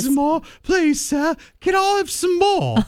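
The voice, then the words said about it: Oliver Twist impression, English child. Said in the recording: “It reminds me of Oliver Twist. ... That's a good impression.”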